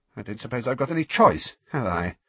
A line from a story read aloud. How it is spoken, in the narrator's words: said Rita, her voice shaking slightly